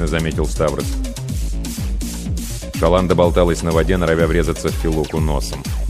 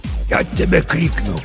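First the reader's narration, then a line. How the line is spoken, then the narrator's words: Hissing through teeth. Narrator (Russian): прошипел сквозь зубы папа Сатырос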